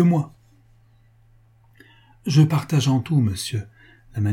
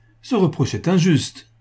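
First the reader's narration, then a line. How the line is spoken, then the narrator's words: Exclaiming. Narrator (French): s'écria Sophie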